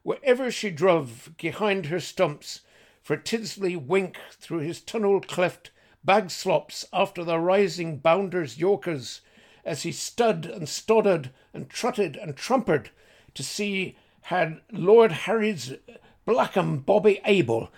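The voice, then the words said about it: Reading aloud in an accent. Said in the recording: “forgive my accent”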